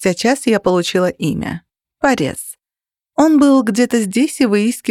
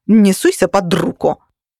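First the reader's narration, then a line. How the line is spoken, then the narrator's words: Angry curt retort. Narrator (Russian): сердито через плечо бросила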